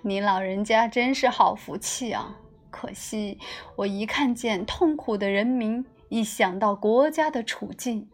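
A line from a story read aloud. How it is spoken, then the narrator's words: Bitter smile. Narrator (Chinese): 屈原苦笑着说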